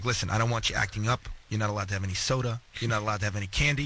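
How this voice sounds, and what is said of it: Imitated accent of an older woman. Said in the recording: “my grandmother, who's my mother's mother, and I'm going to do the accent again”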